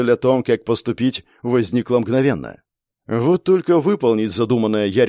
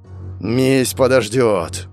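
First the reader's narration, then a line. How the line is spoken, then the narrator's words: Growl. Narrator (Russian): прорычал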